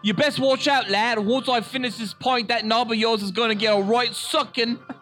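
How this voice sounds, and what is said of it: Put-on British accent. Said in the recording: “That's a better accent than Don Cheadle ... You went Australian at the end.”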